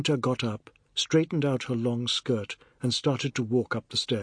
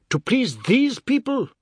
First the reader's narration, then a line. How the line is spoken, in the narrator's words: he screamed